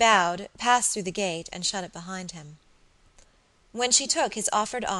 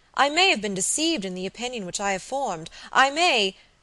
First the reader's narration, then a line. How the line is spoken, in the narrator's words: she exclaimed